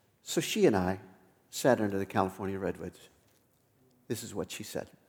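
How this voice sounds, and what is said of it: Usual voice. Nothing is said of it.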